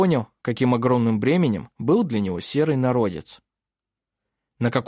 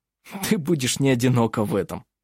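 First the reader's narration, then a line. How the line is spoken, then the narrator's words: Cheerful laughing. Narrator (Russian): засмеялся Хейке, мгновенно приходя в исключительно хорошее настроение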